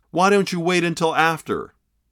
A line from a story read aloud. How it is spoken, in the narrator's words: called out one of the thieves